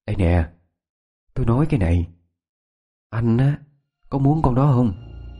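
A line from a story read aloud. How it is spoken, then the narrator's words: Low whisper. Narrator (Vietnamese): Yến nhỏ giọng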